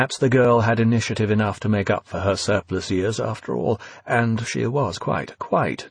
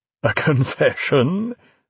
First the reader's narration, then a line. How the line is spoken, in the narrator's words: Lilliman laughed, annoyance disappearing